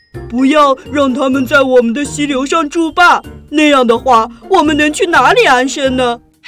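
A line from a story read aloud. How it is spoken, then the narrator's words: Chorus of shouting. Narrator (Chinese): 水獭们喊着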